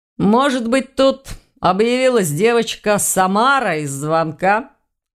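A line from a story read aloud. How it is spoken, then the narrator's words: Laughing. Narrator (Russian): Рассмеялся Ваня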